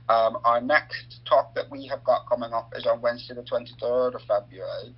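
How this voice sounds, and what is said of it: Northern Irish accent. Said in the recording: “it's an interesting accent you've got there... it's not a local accent... I'm originally from Northern Ireland”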